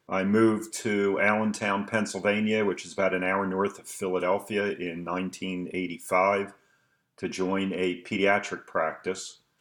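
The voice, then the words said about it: Philadelphia accent. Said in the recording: “for those from the East Coast, maybe I would have tell from my accent that born and raised in Philadelphia”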